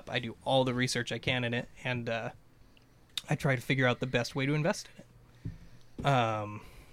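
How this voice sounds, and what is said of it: Hoarse, fading voice. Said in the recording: “I'm losing my voice a little here.”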